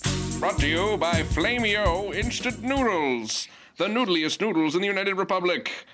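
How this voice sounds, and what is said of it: Silly announcer-style voice. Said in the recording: “doing a silly voice”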